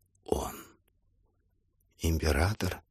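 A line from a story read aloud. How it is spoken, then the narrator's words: Old woman's fearful whisper. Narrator (Russian): Старуха боязливо прошептала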